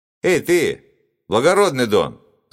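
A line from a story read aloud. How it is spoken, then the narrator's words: Shout. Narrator (Russian): закричал один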